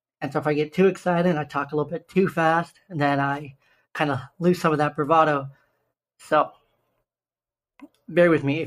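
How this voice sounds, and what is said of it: Slightly raspy voice. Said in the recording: “my voice sounds a little bit raspy.”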